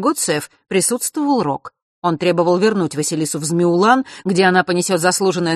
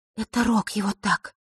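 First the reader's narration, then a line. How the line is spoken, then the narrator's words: Quiet. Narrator (Russian): тихо произнесла Диана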